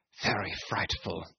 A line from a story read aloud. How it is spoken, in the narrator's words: he murmured